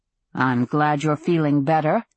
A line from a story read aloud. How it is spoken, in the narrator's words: said dryly